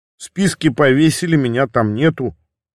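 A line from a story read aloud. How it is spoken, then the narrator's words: Plain. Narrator (Russian): ответил я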